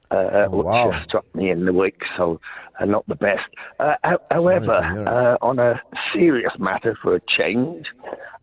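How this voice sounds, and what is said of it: Hoarse voice. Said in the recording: “I hope people can understand me. I'm somewhat hoarse, just about getting over COVID”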